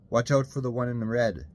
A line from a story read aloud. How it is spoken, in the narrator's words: Sharon shouted through the glass